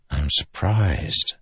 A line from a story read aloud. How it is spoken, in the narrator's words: Delinar whispered